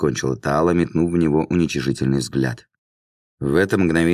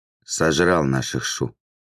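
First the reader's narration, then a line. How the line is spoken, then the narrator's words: Quiet correction. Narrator (Russian): тихо поправил Льё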